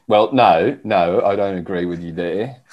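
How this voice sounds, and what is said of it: Imitates another person's voice. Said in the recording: “That was a terrible Billy impersonation... Off me game today with me impersonations.”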